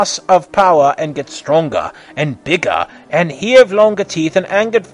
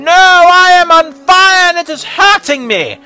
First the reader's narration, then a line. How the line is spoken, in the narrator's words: screamed Ganon and screamed at top of lung